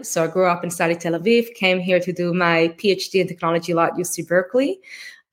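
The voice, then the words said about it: Israeli accent. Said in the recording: “What you're hearing, the accent is Israeli.”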